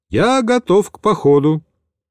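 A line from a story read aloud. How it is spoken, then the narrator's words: Brisk, cheerful voice. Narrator (Russian): Михаил бодрым голосом произнес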